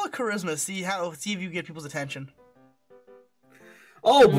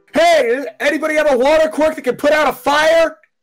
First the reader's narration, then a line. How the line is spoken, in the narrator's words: shout